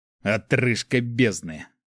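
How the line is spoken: Male growl. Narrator (Russian): рыкнул он

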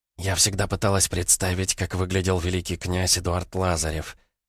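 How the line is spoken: Whisper. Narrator (Russian): прошептала Ольга

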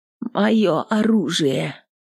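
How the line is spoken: Quiet plea. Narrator (Russian): попросила она тихо

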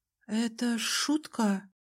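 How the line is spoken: Uncertain, to herself. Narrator (Russian): сказала себе неуверенно

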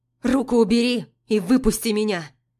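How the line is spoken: Angry demand. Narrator (Russian): Требую зло

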